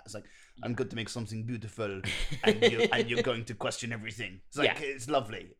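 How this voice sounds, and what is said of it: Bad put-on French accent. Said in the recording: “something incredibly French about that ... with that terrible accent”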